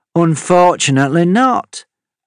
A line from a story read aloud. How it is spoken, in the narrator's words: Amity replied, the sarcasm in her voice clear for all to hear